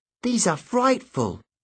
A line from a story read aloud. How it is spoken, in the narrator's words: Emma exclaimed